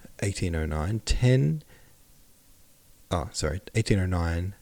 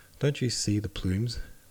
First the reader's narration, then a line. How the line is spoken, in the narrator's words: Was whispered among the crowd